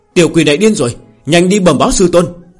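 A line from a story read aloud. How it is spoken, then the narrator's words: Shouting while fleeing. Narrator (Vietnamese): Quát to một tiếng ... bỏ chạy, trong miệng đồng thời hét lớn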